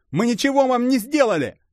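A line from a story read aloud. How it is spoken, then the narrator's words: Bold shout. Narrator (Russian): Набравшись смелости, прокричал Гертон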